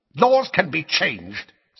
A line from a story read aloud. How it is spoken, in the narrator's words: said Fudge savagely